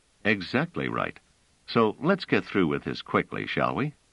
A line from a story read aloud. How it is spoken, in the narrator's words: Trevise said coolly